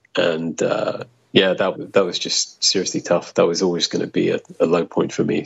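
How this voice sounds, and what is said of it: Silky smooth British accent. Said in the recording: “you have a silky smooth voice, you have a British accent”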